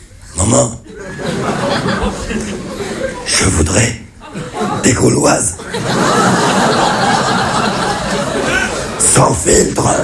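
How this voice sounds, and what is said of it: Raspy throat-cancer voice imitation. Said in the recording (French): “c'est mon père qui a un cancer de la gorge... d'imiter l'accent cancéreux”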